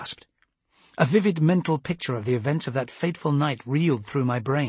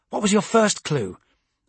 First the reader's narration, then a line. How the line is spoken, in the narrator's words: Amberley snapped